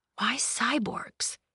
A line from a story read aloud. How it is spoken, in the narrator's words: he murmured